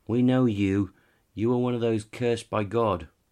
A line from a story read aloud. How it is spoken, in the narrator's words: they shouted back